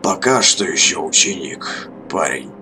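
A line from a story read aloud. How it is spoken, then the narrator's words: Creaky voice. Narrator (Russian): проскрипел он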